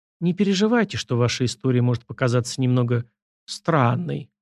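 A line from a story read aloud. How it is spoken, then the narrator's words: Gentle, affectionate. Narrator (Russian): ласково заговорила Арина Родионовна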